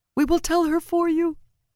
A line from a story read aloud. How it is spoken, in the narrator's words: Artle vowed on sobbing breaths